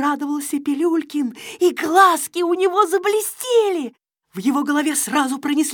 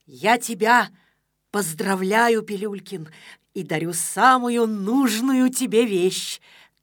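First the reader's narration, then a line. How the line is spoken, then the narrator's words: Solemn. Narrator (Russian): торжественно произнес Незнайка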